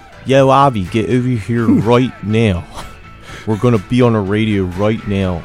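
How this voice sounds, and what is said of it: Usually hidden accent slipping out. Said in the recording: “I've gotten rid of my accent. Sometimes it slips out.”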